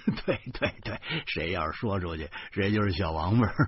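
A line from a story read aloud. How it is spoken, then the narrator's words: Laughing. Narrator (Chinese): 我哈哈笑着说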